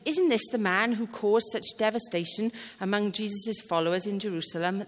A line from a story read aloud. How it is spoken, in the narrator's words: they asked